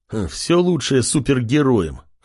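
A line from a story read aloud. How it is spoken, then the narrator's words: Wry snort, American. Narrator (Russian): хмыкнул Джек, который, к слову, американец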